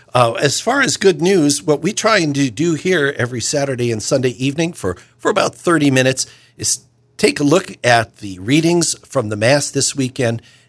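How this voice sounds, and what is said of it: Slightly hoarse voice. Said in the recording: “I'm a little hoarse today”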